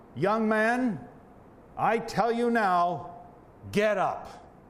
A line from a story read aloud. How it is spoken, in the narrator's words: says in a loud voice